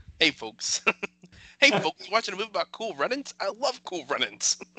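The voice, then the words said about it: Imitates another person's voice. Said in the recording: “I would just stick to Jimbo Fisher. ... much better.”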